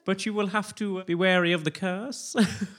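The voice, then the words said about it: Good impression of a garden wizard. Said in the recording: “That's a really good impression.”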